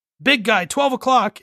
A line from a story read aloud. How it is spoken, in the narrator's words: Drax shouts back at him